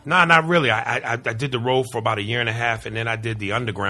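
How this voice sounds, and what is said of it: Usual voice. Nothing is said of it.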